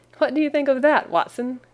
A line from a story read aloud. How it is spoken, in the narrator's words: cried Holmes in high glee